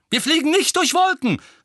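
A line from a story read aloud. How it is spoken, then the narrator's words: Angry shout. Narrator (German): rief Tonks erbost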